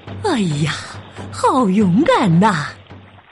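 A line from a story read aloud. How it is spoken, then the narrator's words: Admiring exclamation. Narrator (Chinese): 他赞叹道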